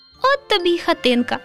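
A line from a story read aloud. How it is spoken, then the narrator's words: Laughing. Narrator (Ukrainian): засміялося Руденьке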